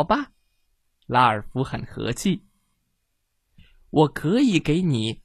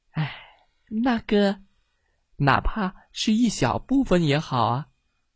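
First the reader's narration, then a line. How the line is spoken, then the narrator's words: Disappointed sigh. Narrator (Chinese): 失望的叹了口气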